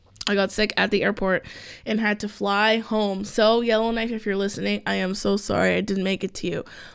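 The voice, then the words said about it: Froggy voice from a cold. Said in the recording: “my voice sounds a little froggy because I am just recovering from the cold”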